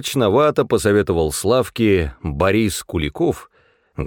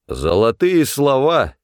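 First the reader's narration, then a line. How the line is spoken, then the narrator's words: Booming drone. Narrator (Russian): прогудел Борис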